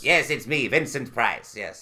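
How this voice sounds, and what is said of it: Poor imitation of another person's voice. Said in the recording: “It was a terrible Vincent Price impression.”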